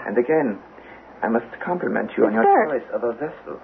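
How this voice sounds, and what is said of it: German accent. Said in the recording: “The German accent.”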